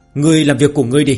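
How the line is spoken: Irritated roar. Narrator (Vietnamese): thiếu niên gầm lên với giọng điệu đầy bực bội

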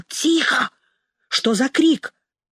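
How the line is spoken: Angry whisper. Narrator (Russian): сердито прошептал

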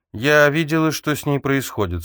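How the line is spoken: Calm, warm voice. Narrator (Russian): сказала Рози, и ее голос звучал спокойно, как теплый ветерок

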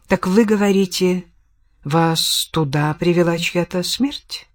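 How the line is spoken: Plain. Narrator (Russian): спросил Бэнкс

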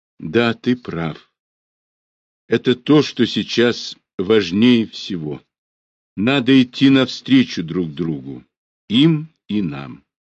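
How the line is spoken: Quiet, calm voice. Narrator (Russian): Спокойное удовлетворение ясно обозначилось на ее лице, и она тихо и уже покойно сказала

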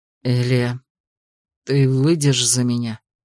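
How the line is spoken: Said quietly. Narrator (Russian): Сказал тихо

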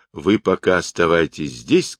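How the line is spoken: Plain. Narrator (Russian): сказал Сунь-Укун

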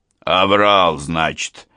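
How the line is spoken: Snorting remark. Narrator (Russian): хмыкнул Орлов

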